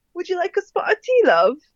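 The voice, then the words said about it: Put-on British accent. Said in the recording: “try to do like a British accent. ... A British accent?”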